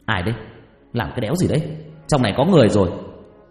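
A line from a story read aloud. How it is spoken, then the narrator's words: Startled shout. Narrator (Vietnamese): Tôi giật mình quát lên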